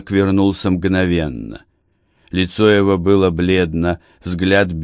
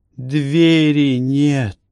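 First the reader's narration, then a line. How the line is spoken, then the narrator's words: Breathed out. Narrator (Russian): выдохнул Барак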